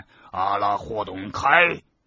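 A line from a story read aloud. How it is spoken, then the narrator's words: Rough loud shout. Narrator (Chinese): 一个声音粗暴的大喊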